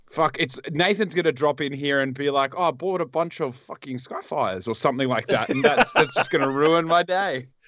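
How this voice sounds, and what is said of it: Bad put-on colonial Zimbabwean accent. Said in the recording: “worst Zimbabwean accent I've ever heard ... Like, that colonial Zimbabwean accent ... I was going for the white man.”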